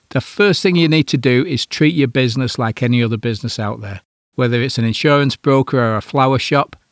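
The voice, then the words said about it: Slightly croaky voice. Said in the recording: “my voice is getting a bit croaky with all this smoke we've been having”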